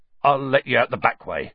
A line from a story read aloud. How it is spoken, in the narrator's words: said Hagrid